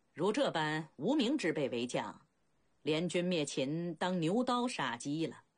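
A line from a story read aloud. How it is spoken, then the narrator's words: Faint calm laugh. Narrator (Chinese): 齐闵王虽然并不振奋，淡淡笑道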